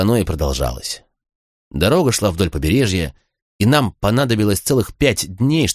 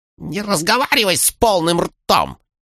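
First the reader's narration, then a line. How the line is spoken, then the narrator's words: Snapping retort. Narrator (Russian): огрызнулась она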